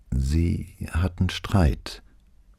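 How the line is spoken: Hesitant woman. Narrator (German): rückte sie zögernd heraus

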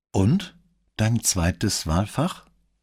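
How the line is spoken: Plain. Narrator (German): fragte Brunetti

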